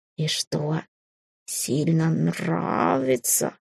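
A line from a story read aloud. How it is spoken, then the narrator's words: Sly drawl. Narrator (Russian): хитро протянул фамильяр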